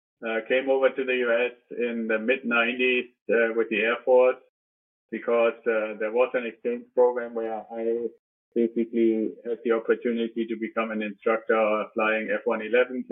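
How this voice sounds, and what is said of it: Slight German accent. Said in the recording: “I'm originally from Germany. I still have a little bit of the accent.”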